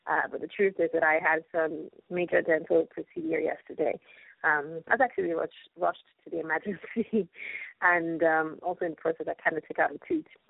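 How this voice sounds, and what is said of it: Low-energy, mumbling voice. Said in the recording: “I know I'm sounding a little low on energy, and I'm not sounding like my typical self. And I probably might be sounding like I'm mumbling”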